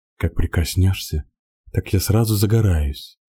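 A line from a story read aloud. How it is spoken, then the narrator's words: Tender whisper. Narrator (Russian): ласково шептала она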